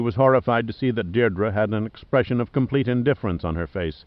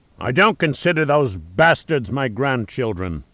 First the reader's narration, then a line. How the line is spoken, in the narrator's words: Dorset roared back